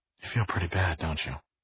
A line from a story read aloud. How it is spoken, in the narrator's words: She said softly